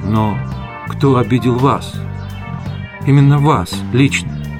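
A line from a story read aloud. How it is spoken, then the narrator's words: Quiet question. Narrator (Russian): Тивиса тихо спросила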